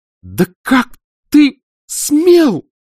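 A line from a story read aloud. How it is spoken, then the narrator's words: Breathless exclamation, woman. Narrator (Russian): прерывисто, будто задыхаясь, воскликнул сначала женский голос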